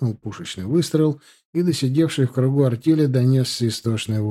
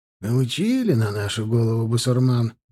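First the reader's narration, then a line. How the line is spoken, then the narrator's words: Grumbling. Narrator (Russian): проворчал Антонов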